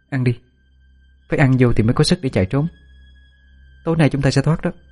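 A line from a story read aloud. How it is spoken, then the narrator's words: Reassuring. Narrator (Vietnamese): Tôi trấn an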